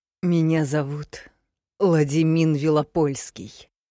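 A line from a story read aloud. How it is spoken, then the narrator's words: Growled through teeth. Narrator (Russian): сквозь зубы прорычал создатель Ордена Крона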